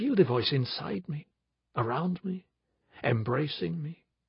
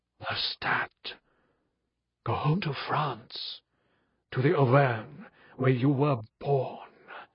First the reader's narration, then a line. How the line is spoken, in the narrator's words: he whispered, just as if he were beside me